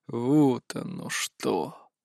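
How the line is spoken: Drawled. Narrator (Russian): протянул

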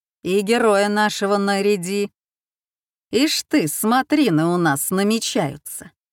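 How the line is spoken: Stern addition. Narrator (Russian): строго добавил

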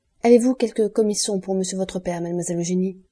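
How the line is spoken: Plain. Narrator (French): dit-il

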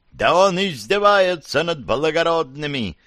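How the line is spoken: Shrill yelling. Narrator (Russian): истошно заорал последний

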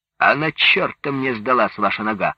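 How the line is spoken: Rude sudden interruption. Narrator (Russian): вдруг грубо оборвал его Иван Яковлевич

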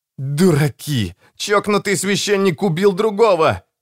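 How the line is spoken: Howled. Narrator (Russian): взвыл Родриго

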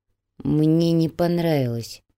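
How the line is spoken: Through gritted teeth. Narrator (Russian): сквозь зубы процедил Чайка

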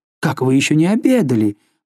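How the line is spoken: Exclaiming. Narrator (Russian): воскликнула она

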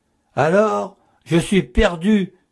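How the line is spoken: Distraught exclamation. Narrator (French): s'écria-t-elle d'un air égaré

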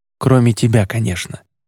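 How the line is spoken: Quick addition. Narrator (Russian): быстро добавил он

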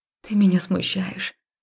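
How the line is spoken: Mumbled. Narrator (Russian): пробормотала я

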